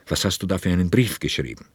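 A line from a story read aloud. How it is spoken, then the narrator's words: Calm, deliberate, firm. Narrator (German): Herrn Mendels Antwort kam ruhig, bedächtig und unwidersprechlich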